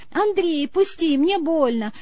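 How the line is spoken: Playful pleading. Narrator (Russian): шутливо взмолилась она

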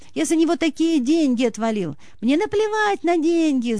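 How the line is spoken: Shouting woman. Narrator (Russian): кричала жена

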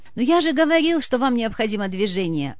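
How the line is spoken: Jubilant exclamation. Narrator (Russian): воскликнул ликовавший профессор

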